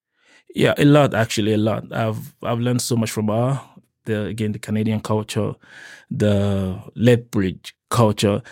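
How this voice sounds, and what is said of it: Noticeable non-native accent. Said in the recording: “I get corrected all the time by my pronunciation ... because I've got this sketchy accent.”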